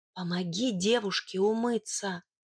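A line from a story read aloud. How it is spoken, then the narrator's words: Whisper. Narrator (Russian): Я шепнула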